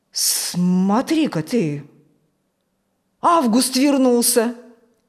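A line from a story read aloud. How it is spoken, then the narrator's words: Surprised exclamation. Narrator (Russian): удивленно воскликнул Фокт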